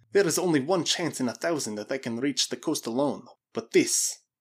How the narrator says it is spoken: muttered to himself

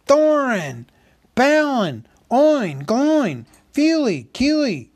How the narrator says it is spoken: he cried, as loud as he could

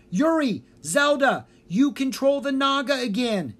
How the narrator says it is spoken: yelled

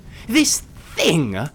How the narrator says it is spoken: exclaimed

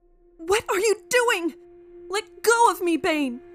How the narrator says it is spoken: Cheryl shouts in anger as she tries to break free

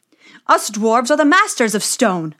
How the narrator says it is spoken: they cried

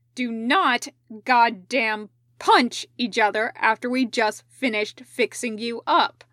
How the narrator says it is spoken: Rido said sharply

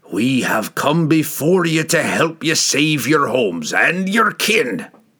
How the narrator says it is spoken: roared

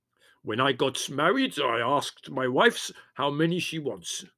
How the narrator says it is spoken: said Spiro in a loud voice

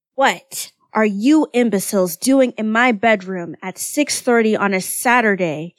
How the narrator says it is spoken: Kyoya bellowed from under his pillow

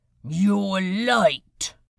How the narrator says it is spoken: Hester sneered

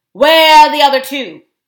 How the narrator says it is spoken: shouted to Eustace

